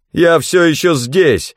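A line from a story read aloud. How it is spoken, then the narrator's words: Yell. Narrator (Russian): заорал я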